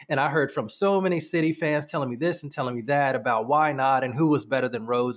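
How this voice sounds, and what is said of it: American accent. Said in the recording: “obviously you can tell by my accent, I am American”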